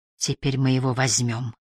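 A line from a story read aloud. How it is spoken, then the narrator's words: Quiet. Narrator (Russian): тихо проговорила она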